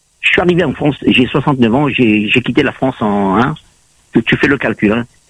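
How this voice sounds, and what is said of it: Southern French accent. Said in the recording (French): “Avec un accent du Sud?”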